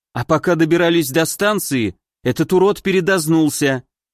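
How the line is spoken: Angry mutter. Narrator (Russian): снова зло буркнула Волька

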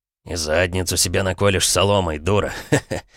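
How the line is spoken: Chuckling. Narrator (Russian): Хохотнул

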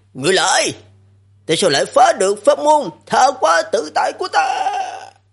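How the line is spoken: Fading distant shout. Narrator (Vietnamese): Giọng nói đó đang nhanh chóng đi xa, dần dần ngày càng nhỏ lại, la lên

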